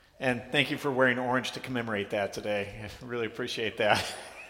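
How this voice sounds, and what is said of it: Hoarse voice. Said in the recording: “you're going to notice I'm a little hoarse this morning”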